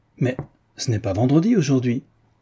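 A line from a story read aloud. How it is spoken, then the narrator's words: Sudden exclamation. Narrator (French): Il s'écria tout à coup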